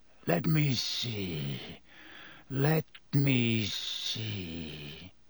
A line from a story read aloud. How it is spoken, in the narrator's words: he muttered